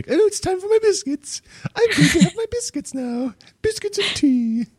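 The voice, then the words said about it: Old British lady voice. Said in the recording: “with a British accent ... that's the old lady voice, old British lady voice”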